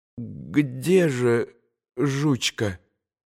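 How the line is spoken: Strained, broken voice. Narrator (Russian): надорванным голосом спросил Илюша

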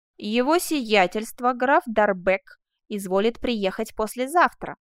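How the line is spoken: Plain. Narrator (Russian): сказала незнакомка

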